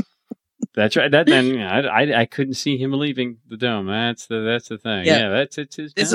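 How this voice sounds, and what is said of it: Usual voice. Nothing is said of it.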